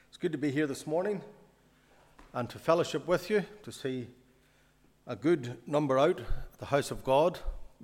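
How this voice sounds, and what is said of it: Mellow northern accent. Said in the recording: “I have a northern accent ... I'm more mid-range, so it might be slightly more mellow.”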